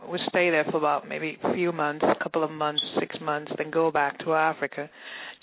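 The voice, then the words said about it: Mixed Nigerian and English accent. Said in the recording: “it's a mixed accent, I guess ... I'm from Nigeria ... I also grew up in England”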